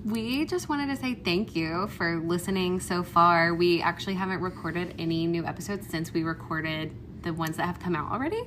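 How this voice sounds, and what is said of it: Hoarse, sick-sounding voice. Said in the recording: “I possibly sound a little bit under the weather because I've been sick ... So have I ... So we both sound a little hoarse right now.”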